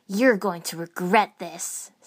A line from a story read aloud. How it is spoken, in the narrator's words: Sakon snarled